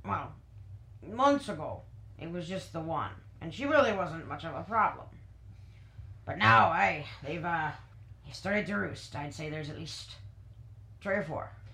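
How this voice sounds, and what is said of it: Put-on accent wandering all over. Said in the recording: “This accent is taking me. ... It's going so many places. ... Over the place. ... So many different places.”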